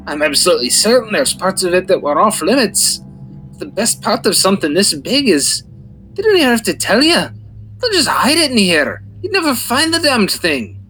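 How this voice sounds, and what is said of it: Put-on Scottish-Irish dwarf accent. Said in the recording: “Am I going from Scottish to Irish? ... from one flavor dwarf ... of dwarvish to another flavor of dwarvish ... my accent goes all over the place”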